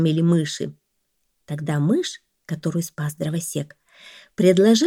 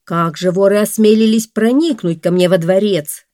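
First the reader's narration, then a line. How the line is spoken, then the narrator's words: Angry shout, king. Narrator (Russian): гневно закричал царь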